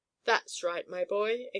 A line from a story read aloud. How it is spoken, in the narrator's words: exclaimed the deep, rumbly voice of Umboo, the biggest elephant in the circus